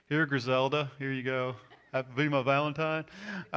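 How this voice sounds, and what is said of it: Imitates another person's voice. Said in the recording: “my best Mike Collar imitation.”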